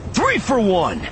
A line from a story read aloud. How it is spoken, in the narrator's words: Kanan yelled